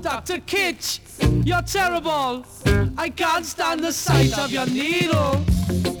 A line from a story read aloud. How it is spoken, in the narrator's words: she starts to shout